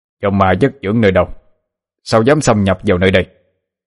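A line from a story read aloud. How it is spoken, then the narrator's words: Loud shout. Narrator (Vietnamese): Hai vị môn thần canh cửa hiện lên, quát lớn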